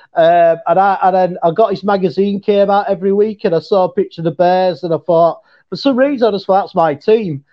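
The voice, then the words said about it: Mixed English and Yorkshire accent. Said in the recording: “your accent is kind of a mix ... mine's like a mixture between, obviously, an English accent, and I've got my local Yorkshire accent”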